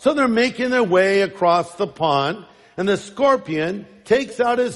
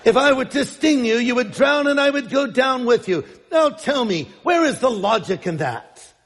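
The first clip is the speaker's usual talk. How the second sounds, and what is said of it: Put-on British accent. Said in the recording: “Seems he would have a British accent.”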